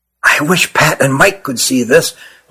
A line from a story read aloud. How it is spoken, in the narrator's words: whispered Nathan to his brother